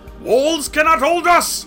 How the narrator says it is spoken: roared his green head

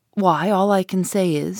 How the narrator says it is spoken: said Gus

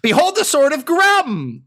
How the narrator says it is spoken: he just yells

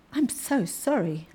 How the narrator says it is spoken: Alice faltered

